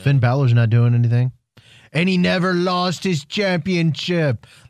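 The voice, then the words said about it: Poor attempt at Irish accent. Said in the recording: “That was awful. I'm sorry. That was my bad. That was horrible accent. I tried to do a Irish accent. ... That was awful.”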